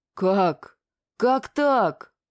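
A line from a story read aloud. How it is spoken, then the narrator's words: Astonished mumbling. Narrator (Russian): пораженно забормотал Звон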